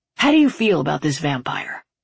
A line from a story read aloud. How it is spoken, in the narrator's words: He sighed